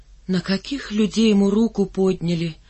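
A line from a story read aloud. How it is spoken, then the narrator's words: Breaking silence, heavy sigh. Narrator (Russian): нарушил тишину Васильев и тяжело вздохнул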